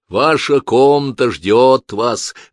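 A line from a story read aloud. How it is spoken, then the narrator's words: Deep booming voice. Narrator (Russian): басил он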